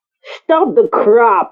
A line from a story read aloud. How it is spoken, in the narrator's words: he snapped